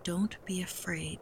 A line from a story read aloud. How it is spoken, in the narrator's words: Tutu said quietly